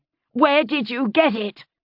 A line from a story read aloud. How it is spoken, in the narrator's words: I screamed